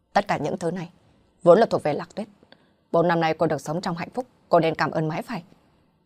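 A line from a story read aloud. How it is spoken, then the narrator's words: Angry. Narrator (Vietnamese): Hạ Viễn Hằng cũng đã tức giận mà nói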